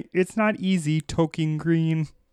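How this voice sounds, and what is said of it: Kermit the Frog character voice. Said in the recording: “my Kermit impression”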